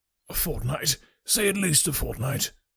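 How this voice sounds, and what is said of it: Despairing, pleading voice. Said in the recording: “he cried in a despairing voice.”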